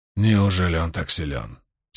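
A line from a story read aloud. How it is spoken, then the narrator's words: Quiet question. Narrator (Russian): тихо спросил Равен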